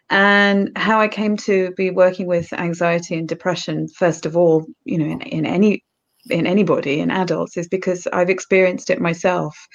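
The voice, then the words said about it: British English accent. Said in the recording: “As you can tell by my accent, I'm British. So I live in Norfolk in the east of England.”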